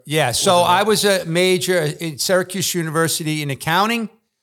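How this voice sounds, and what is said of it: New York accent. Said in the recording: “with this accent, I'm not from Alabama ... he's either New York or he's Kentucky”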